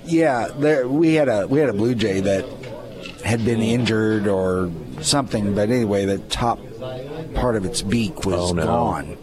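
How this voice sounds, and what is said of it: Mock NPR radio voice. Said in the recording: “NPR voice”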